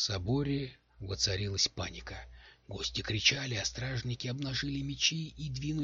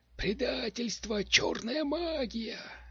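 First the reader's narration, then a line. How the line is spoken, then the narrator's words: Screaming. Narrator (Russian): завопил Каларан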